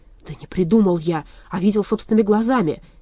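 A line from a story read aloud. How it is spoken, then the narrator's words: Angry objection. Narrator (Russian): сердито возразил Вольп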